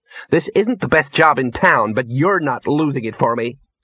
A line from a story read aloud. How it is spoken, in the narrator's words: snapped Ginger